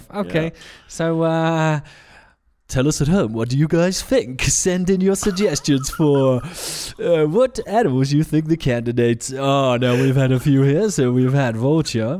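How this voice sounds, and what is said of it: Old-school BBC Radio 2 DJ voice. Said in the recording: “It's like an old school Radio 2, BBC Radio 2 DJ there ... I'm switching the accent now”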